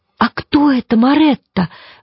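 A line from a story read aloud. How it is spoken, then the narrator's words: Delighted, excited exclamation. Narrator (Russian): в восторге воскликнула Коломбина, заразившись его возбуждением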